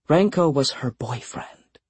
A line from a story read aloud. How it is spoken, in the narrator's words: Deborah whispered, but for everyone to hear